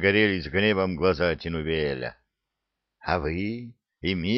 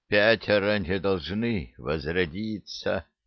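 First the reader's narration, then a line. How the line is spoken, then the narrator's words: Tired rustling whisper. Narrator (Russian): устало прошелестел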